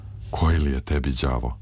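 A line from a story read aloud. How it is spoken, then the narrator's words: Sighing question. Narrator (Serbian): uzdahnuo je i pitao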